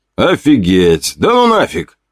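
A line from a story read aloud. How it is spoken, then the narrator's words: Exclaimed. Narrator (Russian): воскликнул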